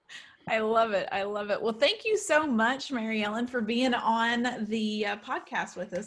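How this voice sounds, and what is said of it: Southern American accent. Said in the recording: “another Southerner ... I made your accent come out ... it's probably going to come out a little worse though”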